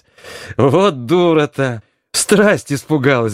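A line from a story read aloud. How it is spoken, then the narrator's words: Ringing laughter. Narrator (Russian): говорила Грушка, заливаясь звонким, как колокольчик, хохотом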